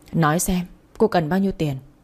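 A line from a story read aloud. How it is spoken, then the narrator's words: Strained, barely steady voice. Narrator (Vietnamese): Tôi cố gắng lắm mới không để cho giọng nói của mình trở nên run rẩy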